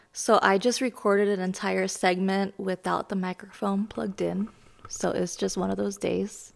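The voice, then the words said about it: Slightly raspy voice. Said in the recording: “my voice is a little raspy because I'm getting over being sick ... bear with me and my raspy voice”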